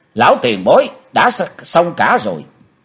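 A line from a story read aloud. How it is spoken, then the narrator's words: Loud shout. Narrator (Vietnamese): Chí Tôn thét to lên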